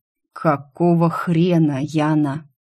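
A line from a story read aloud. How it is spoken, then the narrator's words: Through gritted teeth. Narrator (Russian): процедил Тим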